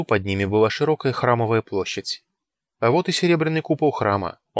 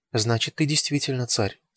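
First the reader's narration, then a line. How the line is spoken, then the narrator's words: Soft speech. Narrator (Russian): тихонько сказала Астурда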